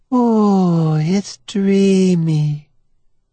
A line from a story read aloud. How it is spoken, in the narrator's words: she says, dreamily